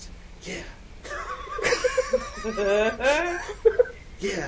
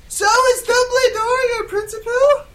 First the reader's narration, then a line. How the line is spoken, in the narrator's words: I shouted